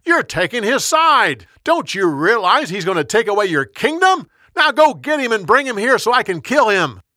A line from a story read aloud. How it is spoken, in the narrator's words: Saul yelled at his son